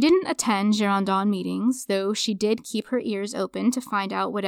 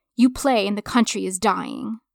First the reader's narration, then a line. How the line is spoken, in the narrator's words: she snapped at them, saying